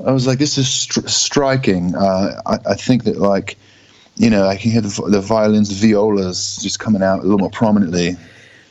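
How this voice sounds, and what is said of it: Put-on posh British accent. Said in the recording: “talk in a. Sort of maybe an Egyptian traveling accent, maybe a British, like,”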